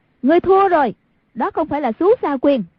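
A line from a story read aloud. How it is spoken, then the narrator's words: Crying out. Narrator (Vietnamese): Hoàng Dung kêu lên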